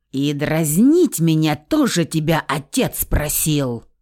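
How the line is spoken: Near growl. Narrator (Russian): почти что прорычала

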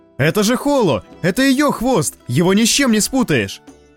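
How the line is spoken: Desperate shout while chasing. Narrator (Russian): Прокричал Лоуренс, отчаянно преследуя раскачивающийся хвост

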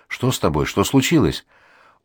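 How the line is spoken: Trembling voice, asking. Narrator (Russian): Дрожащим голосом спрашиваю

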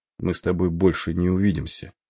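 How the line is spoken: Quiet, continuing. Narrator (Russian): негромко продолжал штурман

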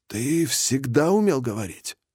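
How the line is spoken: Forced out. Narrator (Russian): наконец выдавил из себя Фред

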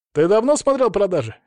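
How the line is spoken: Snorting. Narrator (Russian): хмыкнул близнец

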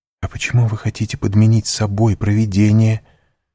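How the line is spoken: Exclaiming. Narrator (Russian): воскликнула Мерседес

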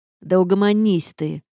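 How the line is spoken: Barking snap. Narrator (Russian): рявкнул Рейнард

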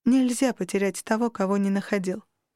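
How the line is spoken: Dismissive snort. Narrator (Russian): пренебрежительно фыркнула я

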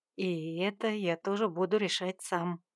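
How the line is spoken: Whispered in ear. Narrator (Russian): прошептал он над ухом

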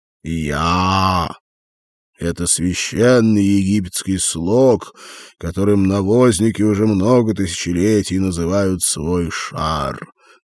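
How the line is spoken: Solemn father. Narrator (Russian): торжественно ответил отец

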